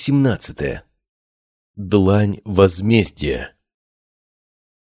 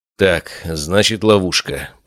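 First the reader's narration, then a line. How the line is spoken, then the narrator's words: Muttering. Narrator (Russian): пробормотал я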